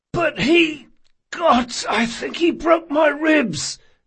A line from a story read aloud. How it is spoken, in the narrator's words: wheezed the first man Jean had dealt with